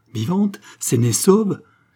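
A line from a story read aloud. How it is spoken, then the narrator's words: Joyful exclamation. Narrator (French): s'écria Roland avec l'accent de la joie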